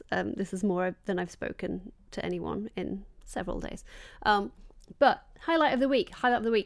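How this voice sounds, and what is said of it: Strained, fading voice. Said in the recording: “I am losing my voice.”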